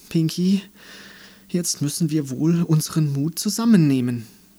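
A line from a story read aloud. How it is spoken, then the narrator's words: Sighed. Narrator (German): seufzte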